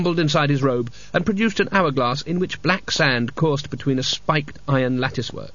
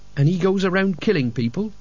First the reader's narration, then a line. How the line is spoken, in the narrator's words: said Mort